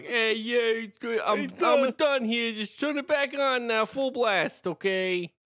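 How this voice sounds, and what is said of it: Put-on plumber character voice. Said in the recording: “do a plumber voice ... Are you okay? Did you have a stroke?”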